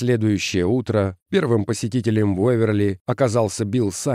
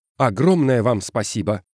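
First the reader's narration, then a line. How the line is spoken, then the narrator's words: Exclaiming. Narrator (Russian): воскликнул Эскин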